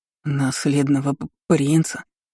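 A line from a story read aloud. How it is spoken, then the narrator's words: Stammering question. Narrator (Russian): с заиканием спросил прислужник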